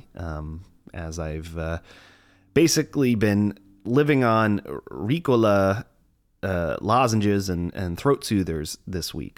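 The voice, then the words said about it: Congested, stuffy voice. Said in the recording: “I sound a little congested. ... It's because I am. I've been battling a little bit of a chest cold and a cough.”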